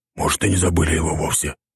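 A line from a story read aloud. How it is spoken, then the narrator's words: Whispered. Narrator (Russian): прошептал юрист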